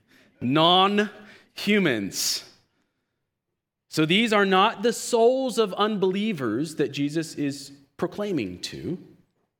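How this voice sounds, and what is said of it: Southern US accent. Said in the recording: “It's my southern accent leaking.”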